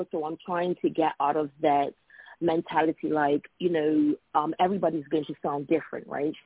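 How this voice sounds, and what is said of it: Noticeable accent. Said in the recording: “because, you know, of my accent ... I may have a unique sound”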